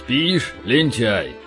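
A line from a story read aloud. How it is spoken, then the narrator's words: Deep booming voice. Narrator (Russian): прогудел он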